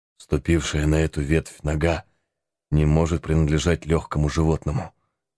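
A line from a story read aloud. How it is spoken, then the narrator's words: Quiet voice. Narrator (Russian): сказал Гэри тихим голосом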